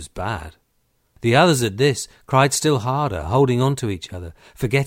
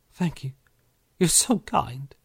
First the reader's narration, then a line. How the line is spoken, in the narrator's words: said, still sobbing